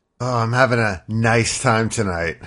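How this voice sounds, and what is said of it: Lower, slower seductive voice. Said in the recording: “sexy voice? ... my sexy voice is a little lower, a little slower ... trying to be seductive with the ladies”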